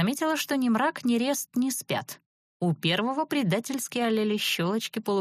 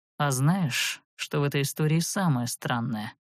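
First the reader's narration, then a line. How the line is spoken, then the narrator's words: Muffled indistinct grumble. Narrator (Russian): невнятно пробурчал Верес из натянутого по самый нос одеяла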